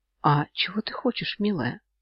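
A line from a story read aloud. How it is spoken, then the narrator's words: Asked almost whispering. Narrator (Russian): Почти шепотом спросил Йен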